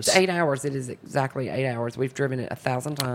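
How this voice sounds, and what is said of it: Southern American accent. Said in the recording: “You have such a beautiful accent. It's a joy to listen to it ... I was the only Southerner”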